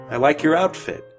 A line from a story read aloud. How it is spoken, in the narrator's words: said